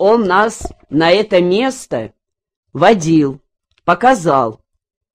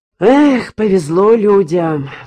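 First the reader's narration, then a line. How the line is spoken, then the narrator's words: Sighing. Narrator (Russian): вздохнул Алексей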